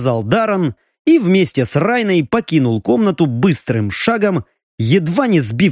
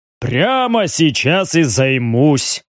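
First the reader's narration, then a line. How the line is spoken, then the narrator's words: Deep bass voice. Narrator (Russian): пробасил здоровяк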